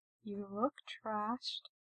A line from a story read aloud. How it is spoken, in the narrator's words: Gerard says softly, concerned